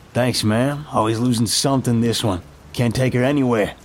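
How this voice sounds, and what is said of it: Thick Bronx accent. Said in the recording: “My voice is thick with the Bronx twang, striving to mask any recognizable traits of my true voice.”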